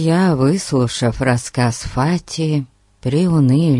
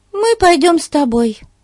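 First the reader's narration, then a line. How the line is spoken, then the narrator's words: Devoted exclamation. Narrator (Russian): воскликнула преданная Бетси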